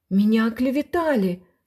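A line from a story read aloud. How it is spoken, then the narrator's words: Moaning. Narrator (Russian): стонал Кулич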